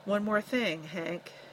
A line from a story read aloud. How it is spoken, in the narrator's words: Lem warned softly